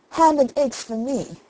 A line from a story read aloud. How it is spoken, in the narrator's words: exclaimed Jack